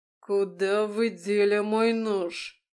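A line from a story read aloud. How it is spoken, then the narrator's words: Growled. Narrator (Russian): прорычал он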